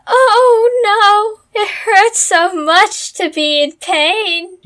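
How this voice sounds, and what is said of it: Hammy overacted impression of Hercules. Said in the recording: “you're even worse actor than he is ... That was a pretty good impersonation of what Hercules did. That was good.”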